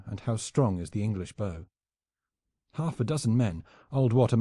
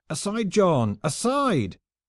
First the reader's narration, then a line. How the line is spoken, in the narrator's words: cried his comrades from below